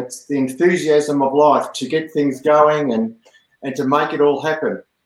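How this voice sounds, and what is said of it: Speaks with a noticeable accent. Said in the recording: “When you say it with that accent”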